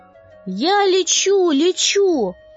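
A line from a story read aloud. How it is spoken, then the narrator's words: Cheerful shout. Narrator (Russian): весело кричал Панипят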